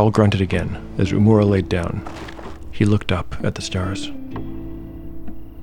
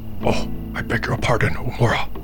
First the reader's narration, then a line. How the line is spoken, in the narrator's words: whispered Harl